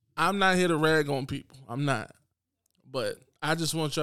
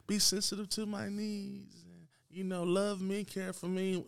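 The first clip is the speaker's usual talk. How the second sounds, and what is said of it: Man putting on a girly voice. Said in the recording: “That's my girl voice”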